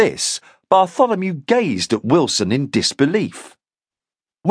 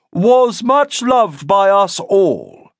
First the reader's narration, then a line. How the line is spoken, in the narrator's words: Wilson intoned